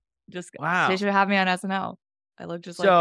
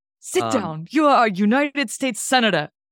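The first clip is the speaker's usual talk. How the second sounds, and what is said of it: Imitates another person's voice. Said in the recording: “My Bernie impression's pretty good. ... That was very good. ... That's actually incredible. That's really good.”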